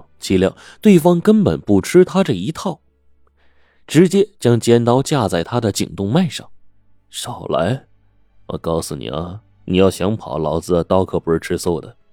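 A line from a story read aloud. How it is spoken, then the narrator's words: Laughing, threatening. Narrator (Chinese): 刘强笑着说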